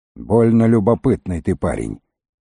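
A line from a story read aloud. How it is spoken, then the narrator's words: Grumbling. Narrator (Russian): проворчал Бравлин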